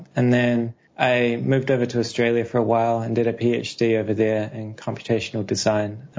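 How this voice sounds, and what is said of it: New Zealand accent. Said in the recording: “back in New Zealand, which is where my accent comes from.”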